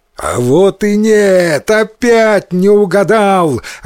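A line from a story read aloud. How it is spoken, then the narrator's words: Gleeful shout, demon. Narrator (Russian): радостно закричал демон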